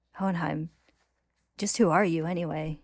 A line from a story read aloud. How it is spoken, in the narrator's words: Izumi asks